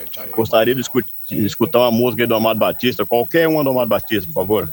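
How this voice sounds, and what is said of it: São Paulo Brazilian accent. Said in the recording (Portuguese): “Já tá com sotaquezinho já de São Paulo.”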